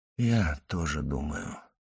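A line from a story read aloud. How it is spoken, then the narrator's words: Gloomy whisper. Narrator (Russian): мрачно прошептал граф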